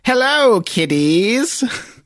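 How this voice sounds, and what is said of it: Crypt Keeper horror host voice. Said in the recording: “this is a Crypt Keeper reference, so I'll try to do the voice. ... Oh, that's pretty good.”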